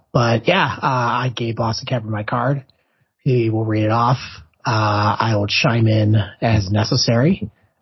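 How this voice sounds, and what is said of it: Voice sounds poor and strained. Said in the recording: “doctor's orders. I should probably take it easy because clearly my voice is terrible.”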